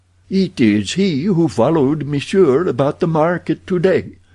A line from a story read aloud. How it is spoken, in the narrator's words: exclaimed Abdul